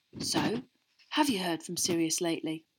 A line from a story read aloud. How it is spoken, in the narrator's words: said very quietly to Harry